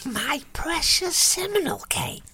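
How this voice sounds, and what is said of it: Gollum impression. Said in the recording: “Oh, that's Gollum. ... It's quite a good impression”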